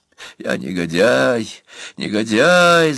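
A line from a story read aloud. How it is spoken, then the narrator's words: Hissed. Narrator (Russian): зашипели полные губы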